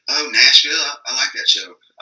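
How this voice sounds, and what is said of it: Put-on country accent. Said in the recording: “I just gave the person from out of town a country accent.”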